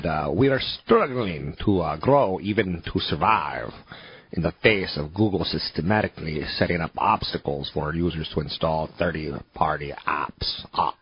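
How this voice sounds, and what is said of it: Bad put-on Portuguese accent. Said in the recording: “that's the worst Portuguese accent ever”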